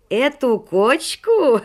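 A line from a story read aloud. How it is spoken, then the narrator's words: Guffawing. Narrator (Russian): расхохотался Шелоник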